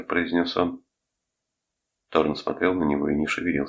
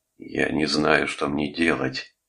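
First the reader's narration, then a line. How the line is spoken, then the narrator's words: Moaning. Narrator (Russian): простонал Торн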